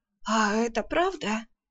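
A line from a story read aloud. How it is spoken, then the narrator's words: Hoarse, coughing, irritated. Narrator (Russian): все еще покашливая прохрипела Арсана, раздраженно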